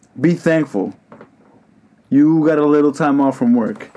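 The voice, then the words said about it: Angry, heated delivery. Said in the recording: “you sound mad angry”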